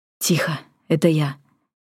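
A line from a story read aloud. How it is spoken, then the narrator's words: Whisper in ear. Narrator (Russian): шепнул Йен ей на ухо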